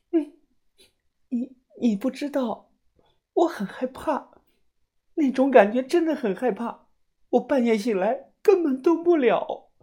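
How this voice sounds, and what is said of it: Quiet sobbing, crying speech. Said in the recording (Chinese): “小声的哭着抽泣了起来”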